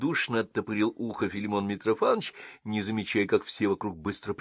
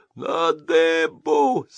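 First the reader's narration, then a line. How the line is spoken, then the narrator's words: Terrible wheezing voice. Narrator (Russian): страшным голосом просипел государь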